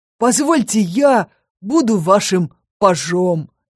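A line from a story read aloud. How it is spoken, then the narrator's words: Exclaimed. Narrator (Russian): воскликнул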